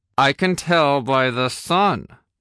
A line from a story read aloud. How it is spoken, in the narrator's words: I said through gritted teeth